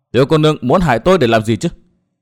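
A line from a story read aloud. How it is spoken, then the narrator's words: Angry loud question. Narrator (Vietnamese): Nguyên Bình tức giận hỏi to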